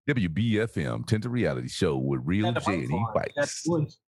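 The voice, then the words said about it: Put-on radio DJ voice. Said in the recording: “my radio voice”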